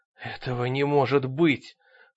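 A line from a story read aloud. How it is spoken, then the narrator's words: Breathless, strained. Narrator (Russian): с трудом выдохнул Ангус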